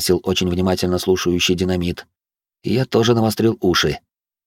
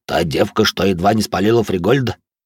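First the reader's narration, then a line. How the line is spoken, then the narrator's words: Smirking snort. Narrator (Russian): хмыкнул Толя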